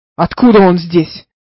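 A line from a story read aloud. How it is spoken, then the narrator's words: Menacing question. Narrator (Russian): грозно спросил Мартин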